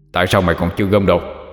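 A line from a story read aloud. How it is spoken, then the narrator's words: Shout. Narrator (Vietnamese): tiếng quát lên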